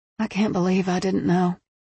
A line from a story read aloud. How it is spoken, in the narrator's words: Patricia sighed